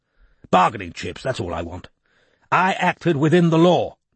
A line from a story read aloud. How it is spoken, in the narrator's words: he said firmly